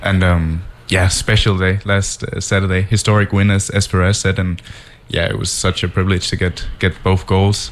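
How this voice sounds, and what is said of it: Danish-influenced mixed accent. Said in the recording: “It's Danish. Okay. It's Danish. It's all over the place.”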